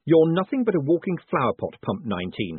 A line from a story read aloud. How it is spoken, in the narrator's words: he snapped